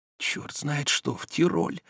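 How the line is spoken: Barely audible whisper. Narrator (Russian): едва слышно прошептал Илья Ильич

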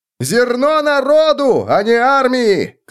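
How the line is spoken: Crowd shouting. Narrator (Russian): кричали одни

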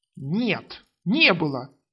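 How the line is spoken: Hissed. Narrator (Russian): прошипел Требор

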